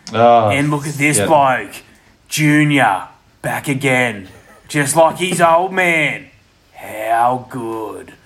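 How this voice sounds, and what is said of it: Matt Nagle commentator impression. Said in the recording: “Matt Nagle's preamble ... That was a pretty good impression.”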